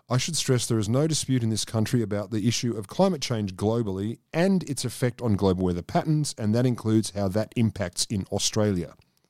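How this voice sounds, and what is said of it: Sexy educated Scott Morrison impression. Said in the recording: “I'm giving his voice a lot more, you know, sexy, random, educated tone ... he sounds ... A hell of a lot more appealing than he normally does.”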